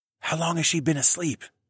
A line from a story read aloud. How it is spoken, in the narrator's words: I whispered